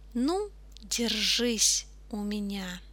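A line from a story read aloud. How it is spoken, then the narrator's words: Mutter. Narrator (Russian): Хозяин собаки пробормотал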